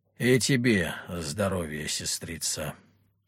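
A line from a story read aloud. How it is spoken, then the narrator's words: Surprisingly gloomy. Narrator (Russian): на удивление мрачно кивнул Петр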